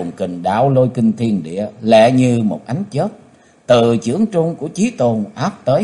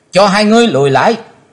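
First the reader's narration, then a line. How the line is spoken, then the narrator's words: Loud shout. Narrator (Vietnamese): Chí Tôn ngó rồi hét to lên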